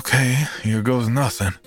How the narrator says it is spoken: let out a defeated sigh, and said

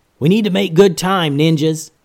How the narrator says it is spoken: yelled Master Momo

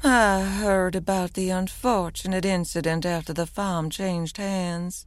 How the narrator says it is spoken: Delilah purred softly

